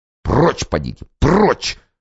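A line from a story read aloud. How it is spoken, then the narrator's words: Hissed. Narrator (Russian): шипел офицерик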